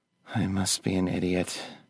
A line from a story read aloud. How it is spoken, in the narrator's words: Candace sighed